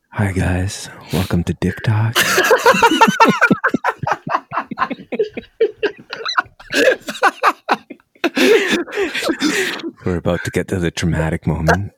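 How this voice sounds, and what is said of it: Soft whispery ASMR-style voice. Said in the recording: “Tell me more in your ASMR voice.”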